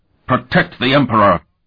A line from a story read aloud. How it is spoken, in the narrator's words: one officer overrode them all with the hoarse bellow